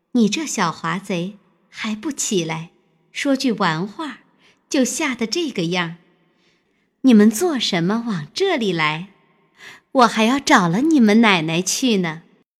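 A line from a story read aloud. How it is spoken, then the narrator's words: Laughing. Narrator (Chinese): 尤二姐笑道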